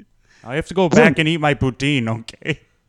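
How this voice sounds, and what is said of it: Exaggerated put-on Canadian accent. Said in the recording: “awful depiction of me and my Canadian”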